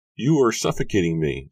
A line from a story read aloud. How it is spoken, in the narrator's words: she exclaimed, grinning at him